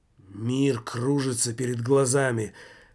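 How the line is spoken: Rasping, growing louder. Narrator (Russian): хрипел Жак все громче

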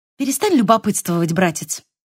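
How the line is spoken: Sharp. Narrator (Russian): резко сказала Мелисса

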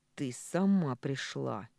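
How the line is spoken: Spat angrily. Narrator (Russian): зло выплевывает

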